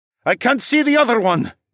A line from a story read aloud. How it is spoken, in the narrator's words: Nike called out